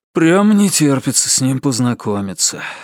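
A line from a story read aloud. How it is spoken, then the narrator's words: Sighing. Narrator (Russian): вздохнул Ричард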